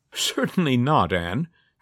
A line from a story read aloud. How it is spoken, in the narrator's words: Julie laughed